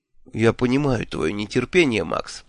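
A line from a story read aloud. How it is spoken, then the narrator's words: Said softly. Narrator (Russian): мягко сказал Шуров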